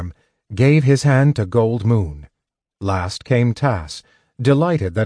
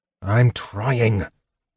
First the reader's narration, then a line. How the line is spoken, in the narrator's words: Caraman muttered